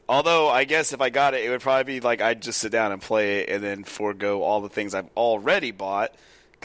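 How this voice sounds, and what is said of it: Rough, strained voice. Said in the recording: “Does my voice sound weird? ... It feels rough. ... 2 days of like screaming at a baseball stadium.”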